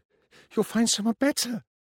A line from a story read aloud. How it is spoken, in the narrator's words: she said desperately